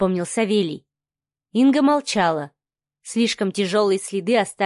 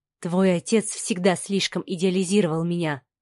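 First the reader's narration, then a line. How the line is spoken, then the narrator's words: Quiet speech. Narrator (Russian): тихо проговорила Инга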